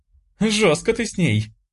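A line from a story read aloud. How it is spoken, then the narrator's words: Barely speaking through laughter. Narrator (Russian): Едва проговорила сквозь смех Оля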